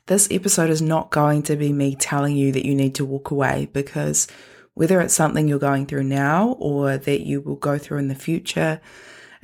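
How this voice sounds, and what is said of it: Strained, not-quite-normal sick voice. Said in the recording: “you might be able to tell my voice is on Struggle Street at the moment. I had COVID last week ... I really hoped that my voice would get back to normal. It's not 100%”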